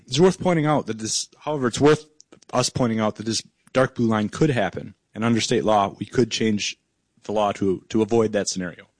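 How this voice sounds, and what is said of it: Hoarse, strained voice. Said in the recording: “I'm obviously losing my voice”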